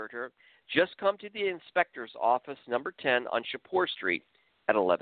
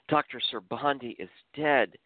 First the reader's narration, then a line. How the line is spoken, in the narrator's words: Rahani nervously muttered out loud to herself